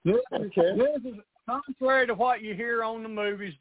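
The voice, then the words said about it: Southern Tennessee accent. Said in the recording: “This is a Tennessee accent ... This is what a Southern accent sounds like.”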